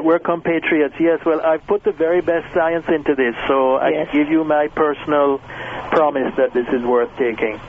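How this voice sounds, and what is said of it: Jamaican accent. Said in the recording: “you have an accent similar to mine. Yes, I'm Jamaican.”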